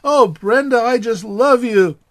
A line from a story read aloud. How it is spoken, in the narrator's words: Judy shouted